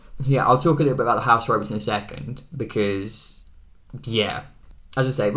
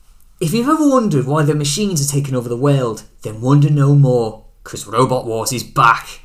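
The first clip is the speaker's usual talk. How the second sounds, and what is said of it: Deliberately bad Scouse accent impression. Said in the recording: “am I going to do an impression? Yeah. Go on then... Be prepared for a horrific, horrific Scouse accent.”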